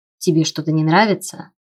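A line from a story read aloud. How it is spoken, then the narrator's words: Deceptively calm question. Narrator (Russian): обманчиво спокойным голосом спросил он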